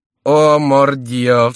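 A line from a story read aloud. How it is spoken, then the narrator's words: Exclaimed with loud laughter. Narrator (Russian): вскричал Келюс, громко захохотав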